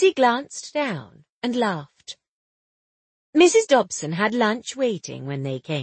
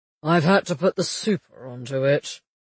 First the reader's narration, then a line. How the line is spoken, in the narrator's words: Alec said gloomily